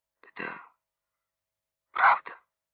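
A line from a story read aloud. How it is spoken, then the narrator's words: Muffled, hollow voice. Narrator (Russian): Глухо сказал Лебедев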